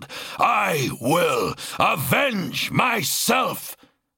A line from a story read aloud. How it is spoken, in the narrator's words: the Blood Angel growled